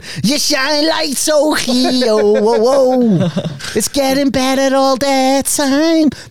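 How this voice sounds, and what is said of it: Singing in put-on Scouse accent. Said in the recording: “I always sing with Scouse accent.”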